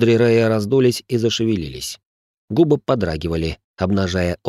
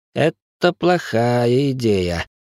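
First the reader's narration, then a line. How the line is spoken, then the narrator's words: Doubtful drawl. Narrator (Russian): с сомнением протянул молодой аристократ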